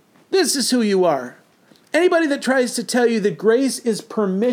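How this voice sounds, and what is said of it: Usual voice. Nothing is said of it.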